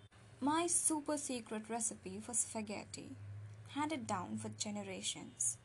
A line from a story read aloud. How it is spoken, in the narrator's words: Billy said gravely